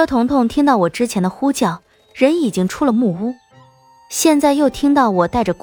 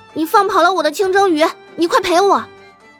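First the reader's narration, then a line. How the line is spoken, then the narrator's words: Angry yelling. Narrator (Chinese): 车彤彤愤愤的嚷道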